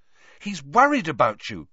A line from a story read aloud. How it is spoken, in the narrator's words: said Hermione sharply